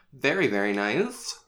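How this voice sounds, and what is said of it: Comic imitation of a film character. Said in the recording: “I accidentally did a Borat impression.”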